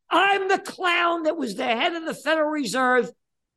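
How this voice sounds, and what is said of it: Screaming. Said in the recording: “I'm screaming”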